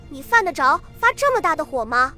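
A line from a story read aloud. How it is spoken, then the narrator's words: Amused, curious. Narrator (Chinese): 杜周南饶有兴趣地……说道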